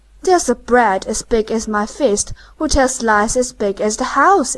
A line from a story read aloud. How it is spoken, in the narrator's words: exclaimed the peddler